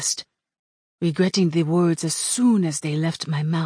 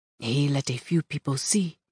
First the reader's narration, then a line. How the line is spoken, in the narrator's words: he said calmly